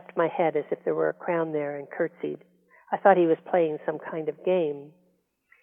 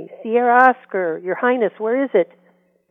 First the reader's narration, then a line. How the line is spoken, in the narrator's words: Cody shouted to me